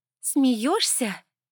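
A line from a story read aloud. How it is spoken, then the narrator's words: Indignant girl exclaiming. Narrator (Russian): возмущенно воскликнула девушка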